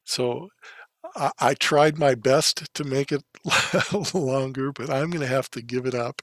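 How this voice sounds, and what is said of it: Strained, failing voice. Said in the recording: “My voice is just about gone. I can feel it going.”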